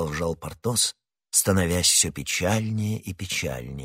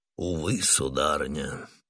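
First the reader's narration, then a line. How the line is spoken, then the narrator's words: Very sad tone. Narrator (Russian): сказал Портос самым печальным тоном, на какой он был способен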